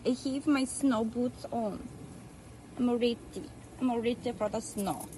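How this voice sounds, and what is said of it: Thick Russian-sounding accent. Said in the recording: “a thick Russian accent ... there's three different accents”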